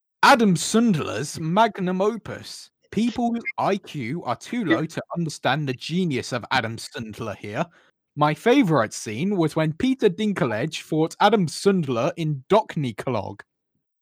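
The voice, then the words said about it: Theatrical actor-style reading voice. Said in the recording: “my best actor voice”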